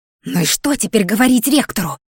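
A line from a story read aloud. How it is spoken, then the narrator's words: Muffled hiss. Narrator (Russian): чьё-то приглушённое шипение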